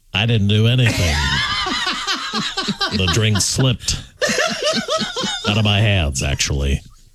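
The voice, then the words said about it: Imitates another person's voice. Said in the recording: “I love her imitation, though, of the man. That's just the best.”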